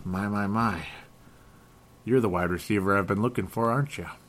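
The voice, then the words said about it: Impression of detective Joe Kenda. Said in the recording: “I was imitating an old detective there... Joe Kenda there. I was just imitating that guy.”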